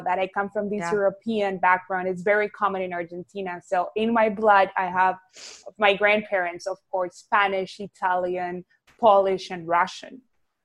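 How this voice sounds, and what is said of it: Argentine Spanish accent. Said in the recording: “people can hear this like awesome accent ... I am from Argentina, Buenos Aires, born and raised. So that's where my accent comes from, Latina.”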